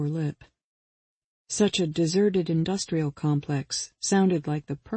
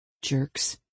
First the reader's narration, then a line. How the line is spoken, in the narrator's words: she muttered